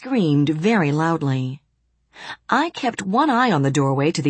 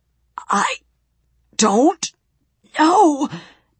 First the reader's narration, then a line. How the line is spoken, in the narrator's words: gasped